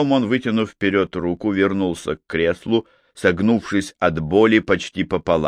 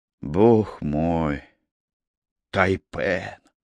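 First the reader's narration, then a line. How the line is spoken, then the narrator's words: Weak voice. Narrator (Russian): слабым голосом произнес Макфей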